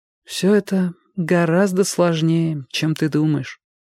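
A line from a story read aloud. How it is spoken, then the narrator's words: Sad, grown-up tone. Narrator (Russian): заметила она грустно и совершенно как взрослая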